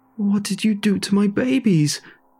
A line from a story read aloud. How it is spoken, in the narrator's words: screamed